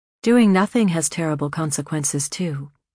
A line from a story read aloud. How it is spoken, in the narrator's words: Anna said calmly